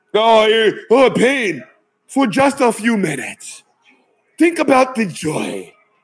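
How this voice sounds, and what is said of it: Put-on African accent. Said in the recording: “I do a pretty good African accent there”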